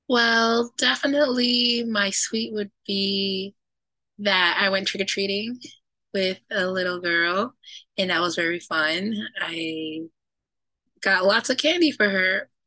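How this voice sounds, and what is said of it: Hoarse, nearly lost voice. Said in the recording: “as you can hear, my voice is gone ... you lost your voice”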